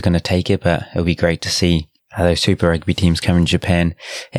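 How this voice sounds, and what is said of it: Quiet voice, New Zealand accent. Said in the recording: “more quiet or voice ... I sound probably as boring as normal with my Kiwi accent”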